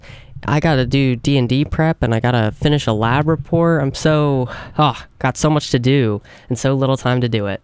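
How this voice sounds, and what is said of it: Slight vocal fry, recovering voice. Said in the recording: “I was kind of sick yesterday and this morning... I've got a little bit of vocal fry”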